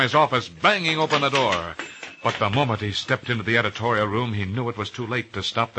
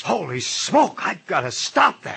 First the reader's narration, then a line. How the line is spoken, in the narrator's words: He gasped